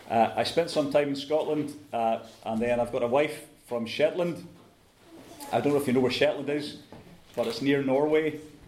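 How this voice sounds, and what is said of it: Scottish accent. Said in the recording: “I have a Scottish accent.”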